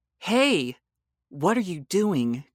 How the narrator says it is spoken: cried out Bella

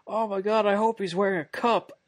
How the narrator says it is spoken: One of them yells out

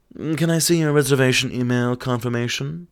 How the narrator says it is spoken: coolly asked

